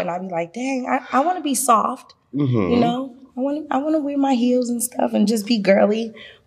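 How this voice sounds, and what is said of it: Heavy Boston accent. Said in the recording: “I'm from Boston. I have that heavy accent”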